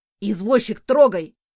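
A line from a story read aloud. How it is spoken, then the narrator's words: Shouted. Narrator (Russian): крикнул Абис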